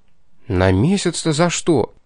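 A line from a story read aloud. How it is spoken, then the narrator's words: Bewildered question. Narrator (Russian): Совсем уж растерянно вопросил я, впечатленный подвигами Златовласки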